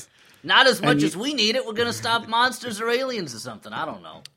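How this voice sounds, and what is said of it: Put-on character accent, well maintained. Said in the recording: “I'm glad that you're maintaining that accent so well.”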